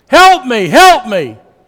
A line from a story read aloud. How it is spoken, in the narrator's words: this scream